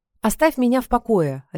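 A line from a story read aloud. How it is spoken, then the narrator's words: Barked. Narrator (Russian): рявкнула я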